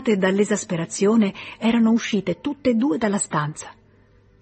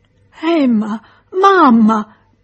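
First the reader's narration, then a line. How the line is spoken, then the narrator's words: Placating whimper. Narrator (Italian): piagnucolava per pacificarle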